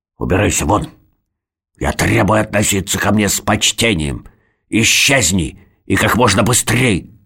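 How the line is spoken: Grunting. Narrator (Russian): Норберт хрюкнул

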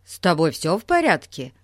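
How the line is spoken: Rapid chattering chorus. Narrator (Russian): Затараторили ребята хором

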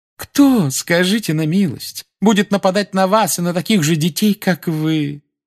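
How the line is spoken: Sickly sweet question. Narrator (Russian): спросила профессор Амбридж отвратительным медовым голоском

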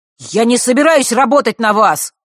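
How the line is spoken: Angry shout. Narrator (Russian): зло выкрикнул он

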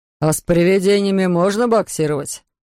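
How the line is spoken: Plain. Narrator (Russian): спросил Эрвин Хорнхобель

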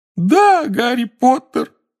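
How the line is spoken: Wailing. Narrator (Russian): взвыл Добби

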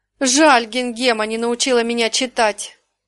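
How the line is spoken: Upset sigh, young girl. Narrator (Russian): огорченно вздохнула девочка

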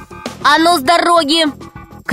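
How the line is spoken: Shout. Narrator (Russian): крикнул Пашка змее

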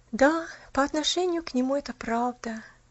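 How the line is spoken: Final sigh. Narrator (Russian): наконец вздохнула она

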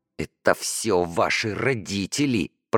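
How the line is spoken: Hissed. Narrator (Russian): прошипела Даша Ромке

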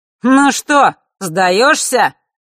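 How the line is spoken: Sudden shout. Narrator (Russian): вдруг выкрикнул Нортон-старший

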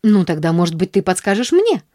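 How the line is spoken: Angry near-bark. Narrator (Russian): с гневом почти рявкнула Нэнси

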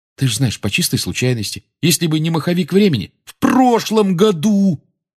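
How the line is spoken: Almost shouting. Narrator (Russian): Рон почти кричал

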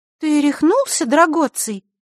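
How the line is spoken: Bewildered question. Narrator (Russian): растерянно спросила она

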